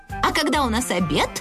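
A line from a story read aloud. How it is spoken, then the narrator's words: Plain. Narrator (Russian): спросил Барашек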